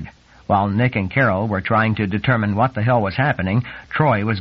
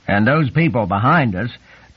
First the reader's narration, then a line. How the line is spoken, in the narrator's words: Troy said in a loud voice